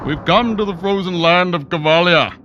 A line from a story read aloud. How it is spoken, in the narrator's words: cried Jaros over the howling wind